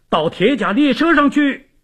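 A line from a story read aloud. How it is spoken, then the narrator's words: Shouting. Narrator (Chinese): 凡西尼……朝队员们高喊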